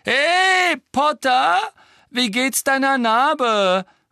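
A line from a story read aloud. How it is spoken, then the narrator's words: Calling out. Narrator (German): rief Malfoy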